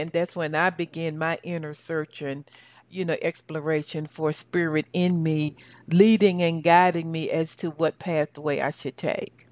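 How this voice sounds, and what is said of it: Southern American accent. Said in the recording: “my Southern dialect”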